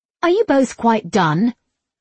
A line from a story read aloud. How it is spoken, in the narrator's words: En snapped